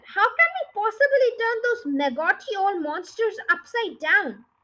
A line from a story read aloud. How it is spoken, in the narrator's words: cried the Muggle-Wump